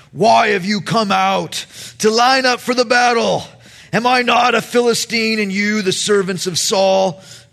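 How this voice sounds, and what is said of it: Menacing giant character voice. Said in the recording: “I'll do my best Goliath impersonation,”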